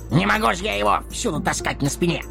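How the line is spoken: Snapping retort. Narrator (Russian): огрызнулся Дори

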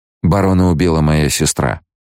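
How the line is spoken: Dry correction. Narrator (Russian): сухо поправил его Пол

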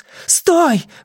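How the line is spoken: Exclaimed. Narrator (Russian): воскликнула она

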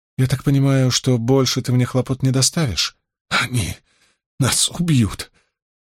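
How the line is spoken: Weak sobbing mumble. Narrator (Russian): Слабо, еле различимо сквозь рыдание, промямлила Магеддин

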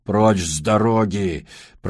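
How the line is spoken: Growl. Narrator (Russian): прорычал Джибрил

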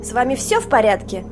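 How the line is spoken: Grumpy, mocking voice. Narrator (Russian): спросила Сюзанна сварливым и одновременно насмешливым голосом Детты Уокер

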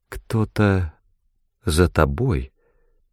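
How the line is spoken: Barely audible. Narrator (Russian): промолвила она едва слышно

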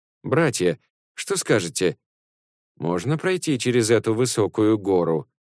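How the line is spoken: Laughing as usual. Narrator (Russian): Сунь-Кун, как обычно, рассмеялся

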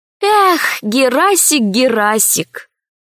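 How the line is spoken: Sigh. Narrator (Russian): вздохнула Алиса

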